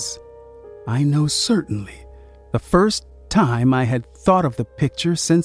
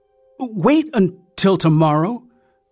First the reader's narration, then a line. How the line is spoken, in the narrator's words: I begged him